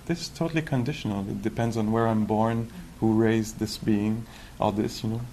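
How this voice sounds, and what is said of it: Strong foreign accent in English. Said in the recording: “my accent right now ... he has a strong accent when he speaks English”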